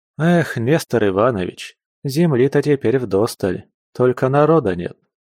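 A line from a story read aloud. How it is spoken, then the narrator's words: Sorrowful sigh. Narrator (Russian): Горестно вздохнул захватчик степных просторов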